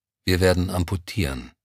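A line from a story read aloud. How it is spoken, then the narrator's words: Steady, composed voice. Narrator (German): Der junge Arzt räusperte sich leise, und man merkte seiner Stimme die innere Zerrissenheit nicht an, als er sagte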